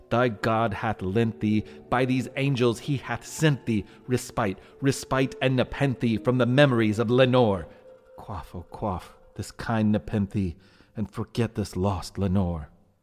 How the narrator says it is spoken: I cried

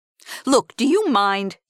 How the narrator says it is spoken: Jerry snapped

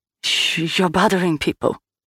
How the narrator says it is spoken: she hissed

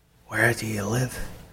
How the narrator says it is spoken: whispering

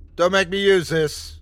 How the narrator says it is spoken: yelled

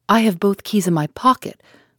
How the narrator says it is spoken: cried Poirot, dumbfounded

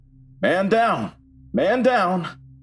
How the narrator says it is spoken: people yelling

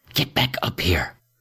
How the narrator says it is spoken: whispered

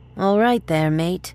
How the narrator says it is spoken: one female slurred

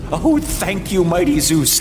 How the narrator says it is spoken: Lycaon exclaimed with tears of gratitude streaming down his face

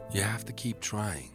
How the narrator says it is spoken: Bill would whisper to him

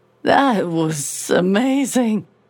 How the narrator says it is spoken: Marion said, using my mouth, although she still slurred the words a little

